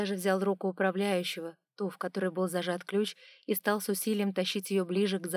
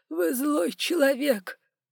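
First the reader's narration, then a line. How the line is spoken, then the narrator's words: Sobbing. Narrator (Russian): всхлипывал управляющий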